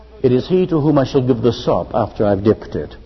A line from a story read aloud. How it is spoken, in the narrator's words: Jesus said quietly, perhaps not heard by anybody but John, and maybe Peter